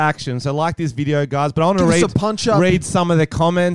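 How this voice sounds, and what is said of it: Usual voice. Nothing is said of it.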